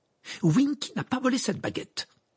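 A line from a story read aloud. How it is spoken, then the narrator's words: Piercing exclamation. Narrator (French): s'exclama Hermione d'une voix perçante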